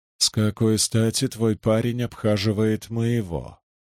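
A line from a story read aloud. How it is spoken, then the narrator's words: Through gritted teeth. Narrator (Russian): процедил Андат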